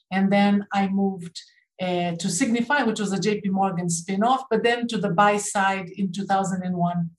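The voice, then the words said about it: Slight Canadian accent. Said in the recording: “accent, so I was born in Brazil ... So you probably pick up a bit of a Canadian accent”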